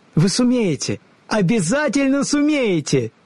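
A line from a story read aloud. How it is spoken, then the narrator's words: Joyful exclamation. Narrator (Russian): радостно вскрикнула Элли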